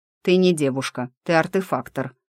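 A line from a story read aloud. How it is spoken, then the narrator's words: Snorting, amused. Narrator (Russian): хмыкнул главный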